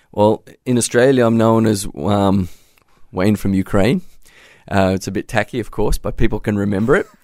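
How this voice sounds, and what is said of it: Australian accent. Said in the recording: “lots of listeners can hear your Aussie accent. You haven't lost that at all.”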